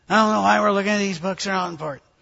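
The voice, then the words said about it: Imitates a grumpy complaining man. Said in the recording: “that was a brilliant impression. ... he was much nicer than that”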